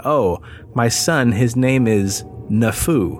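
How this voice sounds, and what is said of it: Broken English accent. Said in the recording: “in a broken English accent”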